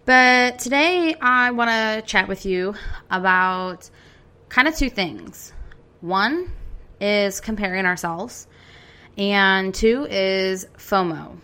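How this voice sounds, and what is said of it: Congested, slightly funny-sounding voice. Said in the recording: “if my voice sounds a little funny, it's because my allergies have been a little on the annoying side today, and I've been coughing like a maniac.”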